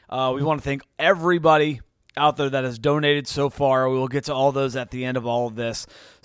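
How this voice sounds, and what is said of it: Tired, fatigued voice. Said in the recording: “My voice is a little fatigued.”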